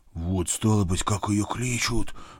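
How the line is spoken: Nervous whisper. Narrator (Russian): прошептал вспотевший Митя

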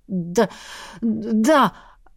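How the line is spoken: Stammering young man. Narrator (Russian): Начал заикаться парень

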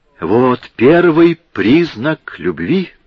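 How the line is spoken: Exclaimed. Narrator (Russian): воскликнул

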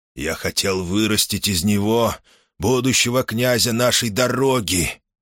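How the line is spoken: Almost tender sigh. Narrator (Russian): чуть ли не с нежностью вздохнул

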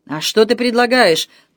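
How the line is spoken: Growl. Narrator (Russian): прорычал Гийом

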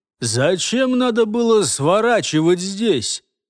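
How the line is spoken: Exhausted mutter under breath. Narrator (Russian): пробурчал себе под нос, еле сползший со своего коня Илос

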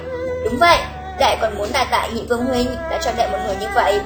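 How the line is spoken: Smiling. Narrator (Vietnamese): Sắc Trần mỉm cười nói

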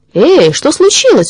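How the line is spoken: Surprised boys shouting. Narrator (Russian): удивленно крикнули ему вдогонку мальчишки

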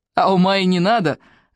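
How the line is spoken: Loud laughter. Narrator (Russian): захохотал Колдунов

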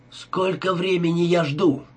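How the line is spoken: Nearly shouting. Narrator (Russian): почти кричал Адам

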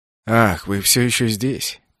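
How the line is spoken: Grumbling. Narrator (Russian): проворчал он

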